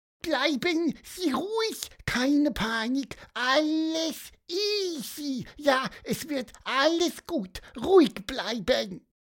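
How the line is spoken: Squeaky voice. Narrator (German): piepste er

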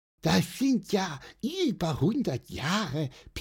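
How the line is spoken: Squeaky. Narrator (German): piepste Pieper

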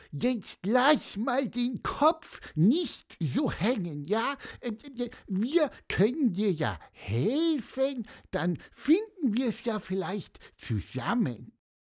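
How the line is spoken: Squeaky voice. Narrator (German): piepste Pieper

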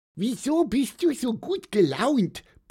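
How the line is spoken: Squeaky, somewhat grumpy. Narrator (German): piepste Pieper etwas mürrisch

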